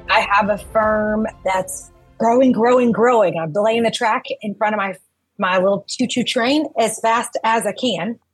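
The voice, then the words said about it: Texas accent. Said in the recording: “you're coming through with a Texas accent.”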